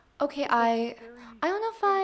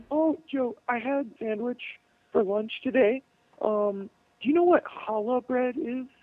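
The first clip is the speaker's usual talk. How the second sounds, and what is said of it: Imitates another person's voice. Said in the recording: “He does an imitation of me. ... I hope I don't sound like that”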